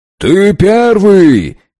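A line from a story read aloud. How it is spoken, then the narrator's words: Shout. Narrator (Russian): крикнул Дог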